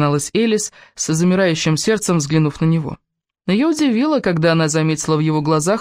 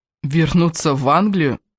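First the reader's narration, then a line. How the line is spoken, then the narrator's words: Indignant exclamation. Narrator (Russian): возмущенно воскликнул Кевин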